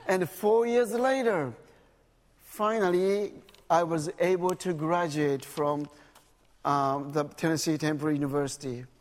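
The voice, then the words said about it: Japanese English with Southern accent. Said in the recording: “I still don't speak English very well ... Actually, I speak Japanese English with Southern accent.”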